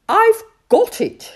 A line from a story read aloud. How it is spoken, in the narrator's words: shouted Timid Toad